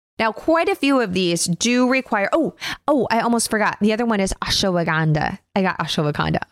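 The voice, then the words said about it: Excited, enthusiastic speaking voice. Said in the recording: “I don't know if you can tell from my voice, but I'm super excited”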